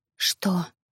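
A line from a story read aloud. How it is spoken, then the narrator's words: Embarrassed whisper. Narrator (Russian): прошептала она стремительно краснея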